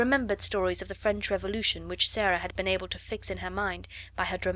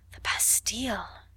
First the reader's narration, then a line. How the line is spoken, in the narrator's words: half-whispered Ermengarde